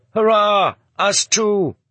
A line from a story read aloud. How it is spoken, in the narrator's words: They were shouting hurrah